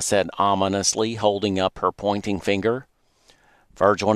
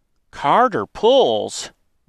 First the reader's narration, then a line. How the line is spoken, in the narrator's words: excitedly replied in unison